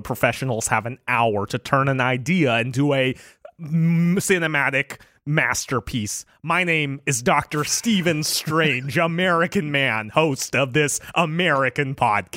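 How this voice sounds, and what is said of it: Poor impression of an American accent. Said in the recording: “your Benedict Cumberbatch impression, and it's probably of all your impressions by far the worst one ... he's doing Benedict Cumberbatch's American accent”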